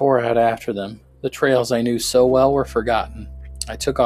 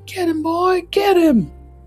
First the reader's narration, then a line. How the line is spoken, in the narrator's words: screaming and yelling as loud as I could